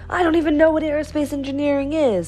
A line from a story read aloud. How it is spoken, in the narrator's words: cried Roy